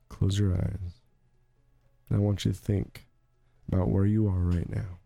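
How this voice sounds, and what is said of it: Calm, soothing radio-host voice. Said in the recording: “You use your NPR voice, everyone. Calm down. Let's turn this down.”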